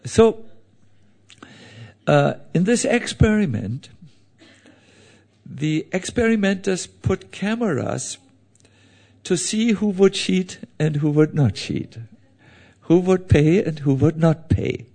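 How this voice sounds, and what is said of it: Heavy accent. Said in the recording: “I speak with a heavy accent. I know it is a torture to listen to me.”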